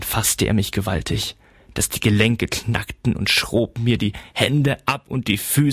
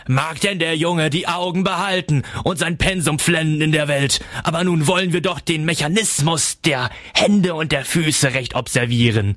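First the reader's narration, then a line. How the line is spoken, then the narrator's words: Shrill laugh, shout. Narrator (German): Coppelius lachte grell auf und rief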